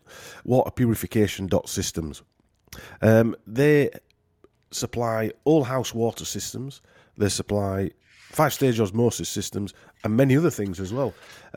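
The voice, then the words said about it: Yorkshire accent. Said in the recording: “I hate saying that in a Yorkshire accent.”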